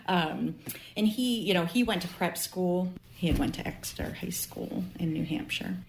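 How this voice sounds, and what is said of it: Maine accent. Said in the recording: “I'm from Maine, obviously, you can tell by my accent.”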